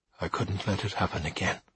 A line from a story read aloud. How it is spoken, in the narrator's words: said Smoot quietly